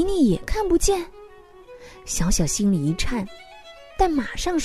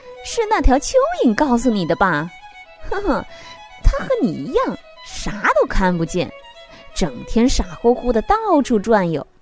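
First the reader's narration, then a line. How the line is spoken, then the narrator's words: Chicks, mocking. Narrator (Chinese): 小鸡们嘲笑他说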